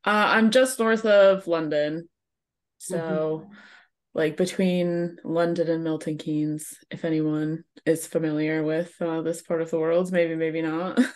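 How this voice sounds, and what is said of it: American accent. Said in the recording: “I'm stuck with a American accent for forever”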